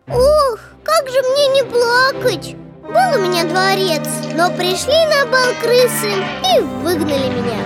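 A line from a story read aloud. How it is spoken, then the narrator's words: Sighing reply. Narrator (Russian): Вздохнул король и отвечает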